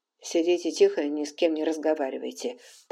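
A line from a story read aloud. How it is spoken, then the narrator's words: Hurried undertone. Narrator (Russian): торопливо сказал он вполголоса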